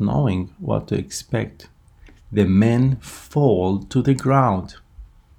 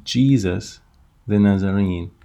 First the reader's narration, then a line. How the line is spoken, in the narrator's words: he calmly continues